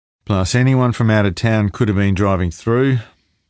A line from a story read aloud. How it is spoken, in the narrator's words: Rako said gloomily